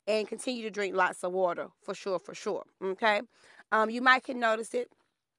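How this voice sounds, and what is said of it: Slightly nasal, congested voice. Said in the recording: “I sound a little nasally ... my sinus and allergies have went crazy ... my nose was a little crazy this week”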